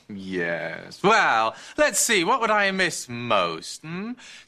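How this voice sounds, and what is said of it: Noticeable, annoying accent. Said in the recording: “That accent of yours, very annoying.”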